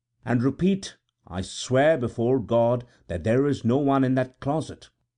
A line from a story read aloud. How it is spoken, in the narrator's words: She repeated the sentence calmly